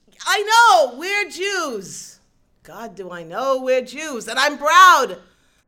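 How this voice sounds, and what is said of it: Shouting loudly. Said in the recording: “Don't yell at your mother! ... Yes, you are. I can hear you in the study.”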